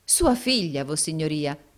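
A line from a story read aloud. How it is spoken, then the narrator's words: Exclaiming. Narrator (Italian): esclamò il baronetto Mulberry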